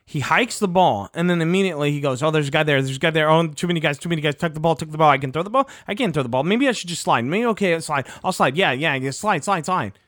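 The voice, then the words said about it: Very fast, panicked speech. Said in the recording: “I'm talking so fast”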